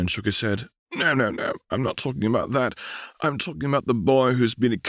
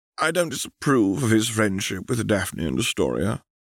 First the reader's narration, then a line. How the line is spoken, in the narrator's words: sighed Edmund